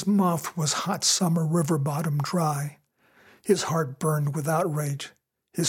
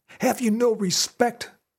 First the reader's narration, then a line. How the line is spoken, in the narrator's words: Fred cried out